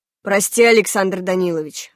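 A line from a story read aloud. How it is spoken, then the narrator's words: Plain. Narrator (Russian): ответил Рахманов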